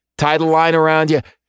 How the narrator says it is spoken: Shane shouts

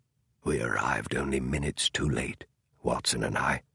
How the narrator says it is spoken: Holmes said in a barely audible voice

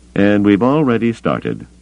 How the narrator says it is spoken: the pudgy man said, his voice surly

